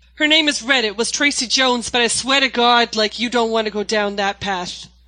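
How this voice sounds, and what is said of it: Put-on 1930s Boston gangster accent. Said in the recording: “a 1930s gangster named Red from Boston... Can you do a bit of the accent?... She's good. I told you she was good.”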